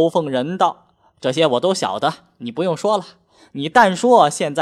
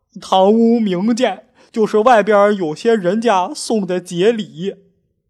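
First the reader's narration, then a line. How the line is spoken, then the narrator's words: Nervous, ingratiating. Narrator (Chinese): 代理的不由得战战兢兢，陪着笑脸回道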